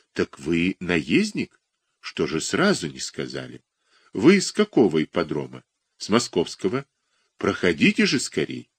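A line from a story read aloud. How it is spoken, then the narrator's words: Quiet. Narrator (Russian): тихо сказал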